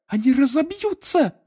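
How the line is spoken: Shrill squeal. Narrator (Russian): взвизгнула Гермиона

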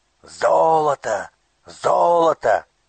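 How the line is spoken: Shouting crowd of robbers. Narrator (Russian): кричали разбойники

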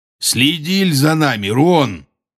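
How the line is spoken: Rough. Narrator (Russian): грубо сказал он

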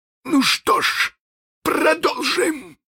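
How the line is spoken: Desperate exclamation. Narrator (Russian): воскликнул капитан в отчаянии

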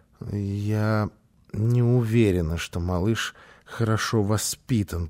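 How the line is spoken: Muttered. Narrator (Russian): пробормотала она

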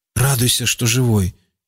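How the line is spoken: Grumbled. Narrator (Russian): буркнул Рауф

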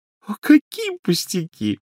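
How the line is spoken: Ringing laughter. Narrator (Russian): миссис Уизли заливисто рассмеялась

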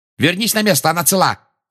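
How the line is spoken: Barking. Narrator (Russian): рявкнула Анжелина

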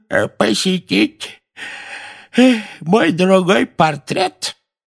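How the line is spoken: Creaky voice, feigned yawn. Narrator (Russian): скрипучим голосом сказал Финеас с притворным зевком

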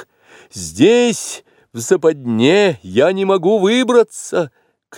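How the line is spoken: Shouted. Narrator (Russian): крикнул Маугли

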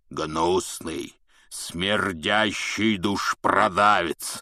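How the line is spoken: Loud roar filling the bar. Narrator (Russian): прорычал Хагрид на весь бар

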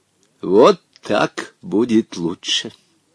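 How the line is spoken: Satisfied mutter. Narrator (Russian): Удовлетворенно пробормотал Хаттабыч

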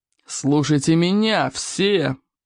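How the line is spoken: Hissed. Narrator (Russian): прошипел Смаркала

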